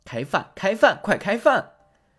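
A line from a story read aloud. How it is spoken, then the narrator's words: Shouting. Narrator (Chinese): 兔子喊道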